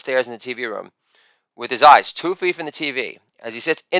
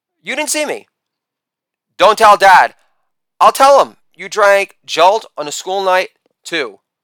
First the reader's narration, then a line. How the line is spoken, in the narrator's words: Arthur turns his head and spots Matilda and yells